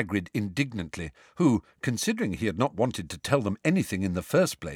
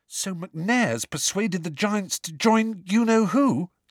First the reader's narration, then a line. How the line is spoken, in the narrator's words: said Hermione desperately